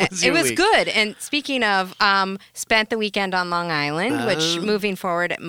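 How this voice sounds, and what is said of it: Usual voice. Nothing is said of it.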